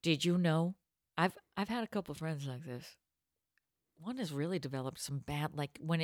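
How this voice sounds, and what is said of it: Usual voice. Nothing is said of it.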